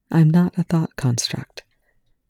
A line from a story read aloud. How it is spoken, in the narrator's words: Riley said quietly